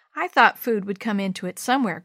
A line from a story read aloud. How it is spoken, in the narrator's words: Grandpa said with a chuckle